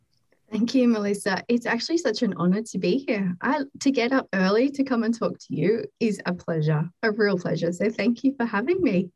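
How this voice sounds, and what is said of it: Slight Australian accent. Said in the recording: “she has a little bit of an accent ... all the way from Australia”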